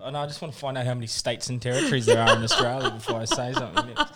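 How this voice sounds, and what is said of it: New Zealand accent. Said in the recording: “You are a real Kiwi. I literally thought you were just the accent was getting put on.”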